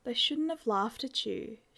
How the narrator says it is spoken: she continued, her voice sinking into a gentle murmur

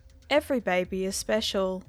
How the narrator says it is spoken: the doctor answered, chuckling

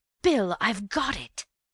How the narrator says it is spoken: he cried

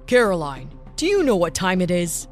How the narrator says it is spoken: Menacingly asked the father

